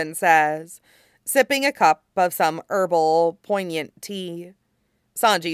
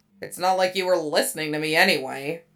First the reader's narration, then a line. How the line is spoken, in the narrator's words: Zoro grumbles